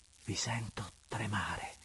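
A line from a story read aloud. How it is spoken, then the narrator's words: Soft, sweet, indefinable tone. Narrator (Italian): in atto di somma dolcezza, diceva piano, con un accento indefinibile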